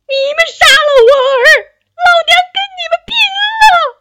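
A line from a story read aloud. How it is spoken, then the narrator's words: Furious crying shout. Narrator (Chinese): 勃然大怒，哭喊道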